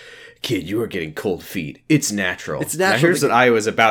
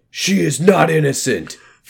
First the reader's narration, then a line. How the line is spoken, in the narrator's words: Foss yelled out